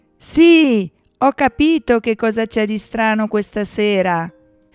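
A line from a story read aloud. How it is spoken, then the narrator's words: Shout. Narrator (Italian): quell'urlo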